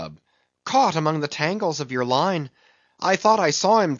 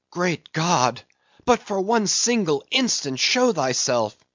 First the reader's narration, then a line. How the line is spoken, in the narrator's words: cried Starbuck